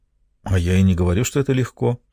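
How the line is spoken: Quiet. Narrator (Russian): тихо сказала

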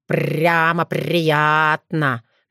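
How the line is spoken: Mocking raven. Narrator (Russian): насмешливо заметил ворон

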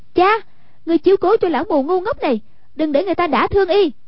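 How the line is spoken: Shouted. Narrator (Vietnamese): Hoàng Dung quát

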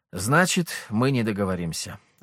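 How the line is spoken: Sighing. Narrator (Russian): вздохнул я

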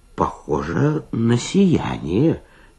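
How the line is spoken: Uncertain muttering waiter. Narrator (Russian): неуверенно пробормотал кельнер

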